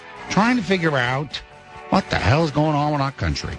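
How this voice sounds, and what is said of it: Imitates another person's voice. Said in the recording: “I'm here doing my Al Pacino ... Of course, that's not Al Pacino. ... Norm encouraged me to do my Al Pacino ... There's a little Al Pacino.”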